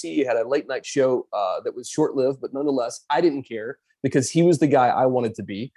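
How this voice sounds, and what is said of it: Hoarse voice. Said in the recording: “I'm a little hoarse right now and I got a cold.”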